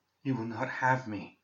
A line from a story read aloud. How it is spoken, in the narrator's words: said weakly